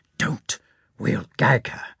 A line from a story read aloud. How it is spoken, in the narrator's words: Daniel whispered